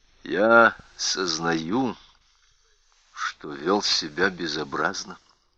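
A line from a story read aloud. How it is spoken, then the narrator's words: Gentle. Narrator (Russian): мягко заметил Ларри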